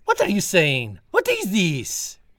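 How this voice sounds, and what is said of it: French accent. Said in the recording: “I hear from your accent that you are French”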